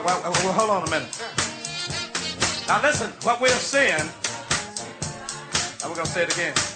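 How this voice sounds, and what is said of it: Mississippi Southern accent. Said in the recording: “this Mississippi accent I got”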